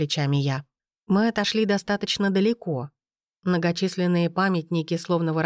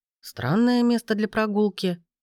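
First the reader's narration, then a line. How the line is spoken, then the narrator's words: Snorting. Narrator (Russian): хмыкнул Брен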